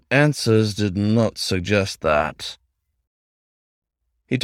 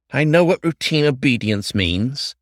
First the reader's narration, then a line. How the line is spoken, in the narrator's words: the fox snapped